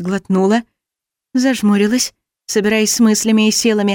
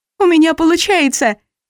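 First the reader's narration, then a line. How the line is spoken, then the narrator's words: Joyful squeal. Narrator (Russian): радостно взвизгнула я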